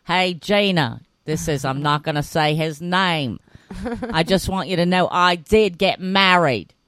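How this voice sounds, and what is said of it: Imitated Australian accent, roughly close. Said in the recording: “that accent is so sexy... I don't know if that's actually an Australian accent... but it was close”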